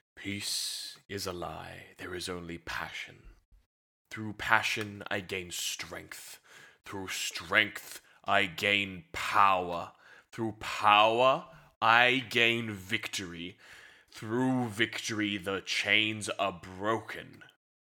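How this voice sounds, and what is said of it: Deep evil villain character voice. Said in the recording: “You really want my most evilest voice? ... No, bad evil.”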